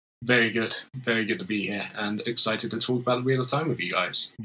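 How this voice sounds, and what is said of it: British accent. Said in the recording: “He also has a sexy British accent”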